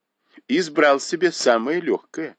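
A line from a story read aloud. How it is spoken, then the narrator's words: Laughing. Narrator (Russian): засмеялась Дай Юй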